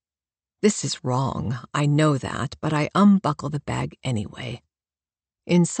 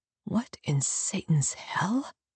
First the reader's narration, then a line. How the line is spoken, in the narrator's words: I mutter